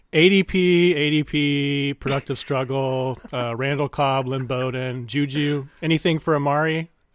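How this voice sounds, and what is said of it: Imitates another person's voice. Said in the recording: “my Ryan McDowell impression”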